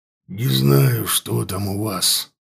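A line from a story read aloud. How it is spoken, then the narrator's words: Growled. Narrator (Russian): прорычал он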